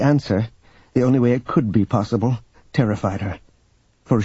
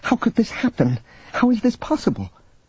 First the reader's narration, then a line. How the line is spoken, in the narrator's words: She cried out to herself